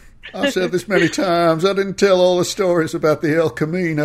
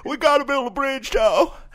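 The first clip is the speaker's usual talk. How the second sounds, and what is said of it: Imitates another person's voice. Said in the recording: “his Bill Clinton impression”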